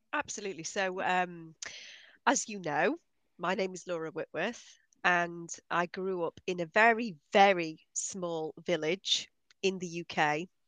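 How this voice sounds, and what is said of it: British accent. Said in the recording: “You're obviously from the UK. You have this lovely British accent.”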